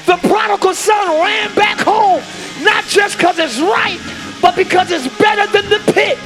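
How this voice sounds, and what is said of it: Screaming, loud preaching voice. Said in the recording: “I'm screaming ... I like to scream”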